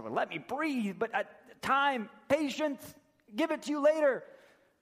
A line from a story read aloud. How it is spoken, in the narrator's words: And the other servant, in between being choked, said